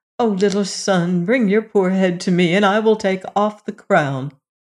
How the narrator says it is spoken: Then she cried

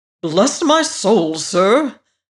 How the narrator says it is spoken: said the manager rather irritably

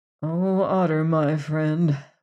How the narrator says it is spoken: murmured Leonard to himself

